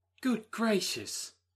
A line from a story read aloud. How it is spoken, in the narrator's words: cried Maria